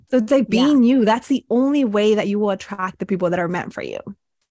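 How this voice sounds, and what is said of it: Slight Latina accent, sassy. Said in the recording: “I have a little bit of an accent. I speak with a little bit of a sass ... tell me you're Latina without telling me you're Latina”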